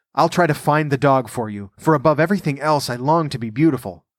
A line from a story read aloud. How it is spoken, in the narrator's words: said the glassblower eagerly